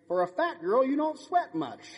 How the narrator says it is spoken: smiles and says kindly

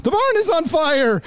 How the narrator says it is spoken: the redhead girl, Connie, Candace, whatever her name was, yells

